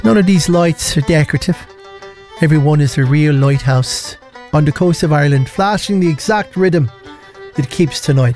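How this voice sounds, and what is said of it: Put-on Irish accent. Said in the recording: “Shall I do the accent? ... By the way, not racist, my family are Irish as well.”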